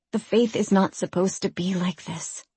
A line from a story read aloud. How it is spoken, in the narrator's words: she breathed